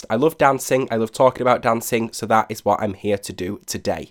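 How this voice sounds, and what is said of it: Voice with a slight cold. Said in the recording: “you probably might be able to tell from my voice, I do have a little bit of a cold.”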